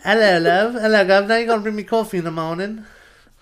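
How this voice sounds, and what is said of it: Put-on posh English accent. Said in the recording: “I don't know what this accent is ... She's not like a distinctly English accent. It's like posh English. Posh.”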